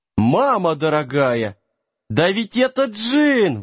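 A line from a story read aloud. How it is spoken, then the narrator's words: Excited yelping dog. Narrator (Russian): восторженно завопил песик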